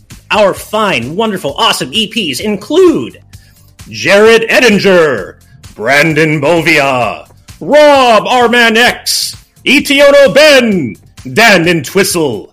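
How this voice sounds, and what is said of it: Video game announcer voice impression. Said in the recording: “do it like the Smash Brothers announcer ... my best Xander Mobus impression”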